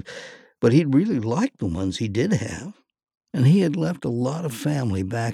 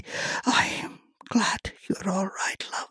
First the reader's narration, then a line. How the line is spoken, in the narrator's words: she whispered